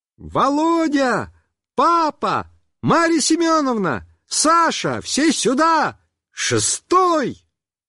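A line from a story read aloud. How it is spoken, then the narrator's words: Cheerful shout, young woman. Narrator (Russian): высокая девушка весело закричала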